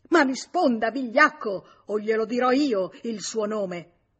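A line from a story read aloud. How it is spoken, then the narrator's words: Furious trembling scream. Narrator (Italian): George, in preda a una collera bestiale che lo faceva tremar tutto, urlò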